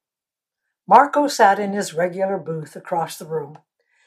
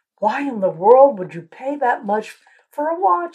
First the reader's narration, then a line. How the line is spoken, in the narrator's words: Susan gasped